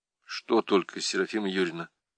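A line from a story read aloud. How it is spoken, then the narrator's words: Quiet question. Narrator (Russian): Так же тихо спросил парень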